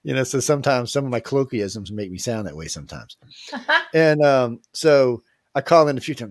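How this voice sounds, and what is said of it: New Orleans accent. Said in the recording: “I'm from New Orleans. I got a cool-ass accent.”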